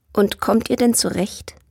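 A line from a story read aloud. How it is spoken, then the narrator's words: Plain. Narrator (German): fragte er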